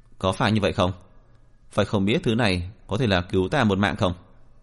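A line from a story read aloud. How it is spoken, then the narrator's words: Cold, dismissive laugh. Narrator (Vietnamese): Diệp Viễn cười nhạt một tiếng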